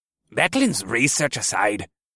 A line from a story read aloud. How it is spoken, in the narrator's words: Doram said in a gruff voice as he munched on his cookie